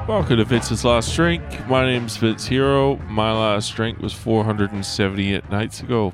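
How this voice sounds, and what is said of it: Sick, sniffly voice. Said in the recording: “Excuse the voice. I feel like I'm coming down with something. Feel like I'm getting the sniffles.”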